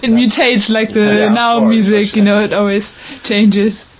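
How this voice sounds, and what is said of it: Mixed German-English accent. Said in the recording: “you got a trippy accent. It does sound England, but it's a little different ... it's not British, but ... German ... German, England. Well, it does have England in it, but it's a mix.”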